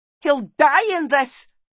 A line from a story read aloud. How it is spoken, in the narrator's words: yelled Meg